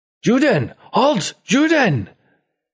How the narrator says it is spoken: your own mother chasing after you, screaming

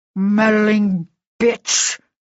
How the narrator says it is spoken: he snarled

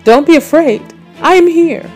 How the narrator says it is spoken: he called out to them

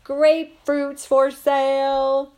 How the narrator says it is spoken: yell at the top of my voice

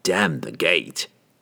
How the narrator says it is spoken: Entreri snarled

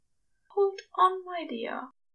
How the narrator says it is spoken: he murmured

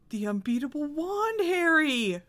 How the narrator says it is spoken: moaned Ron

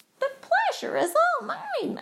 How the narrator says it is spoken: squeaked

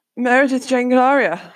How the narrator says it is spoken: spluttered, suddenly aware that I hadn't yet swallowed my previous mouthful

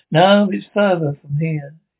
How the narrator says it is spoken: said, shaking his head so sadly

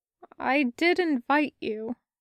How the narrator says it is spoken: Alexander replied, in an uncharacteristically childlike tone

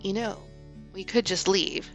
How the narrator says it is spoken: Strike said quietly to Robin

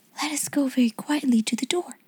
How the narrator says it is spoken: she whispered

